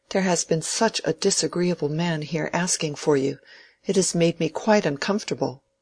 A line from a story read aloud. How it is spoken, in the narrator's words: she said, anxiously